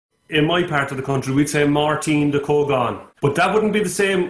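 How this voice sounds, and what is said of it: Irish accent. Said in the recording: “with a proper accent ... the country of Ireland”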